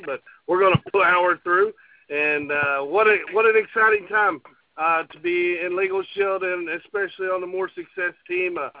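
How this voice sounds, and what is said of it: Hoarse, strained, worn-out voice. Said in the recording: “I apologize for my voice this evening... Lots of hooping and hollering, and so I've lost my voice”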